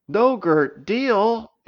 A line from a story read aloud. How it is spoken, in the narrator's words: exclaimed Bede